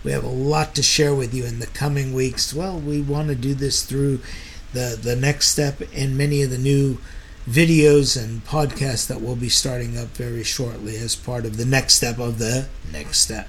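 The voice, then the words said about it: Tired-sounding voice. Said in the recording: “You could tell from my voice that I'm tired”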